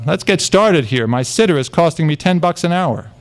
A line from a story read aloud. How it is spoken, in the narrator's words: The girl from Queen's College called out